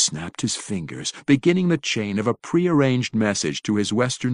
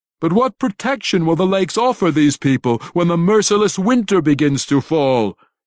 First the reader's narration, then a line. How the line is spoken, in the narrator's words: He shouted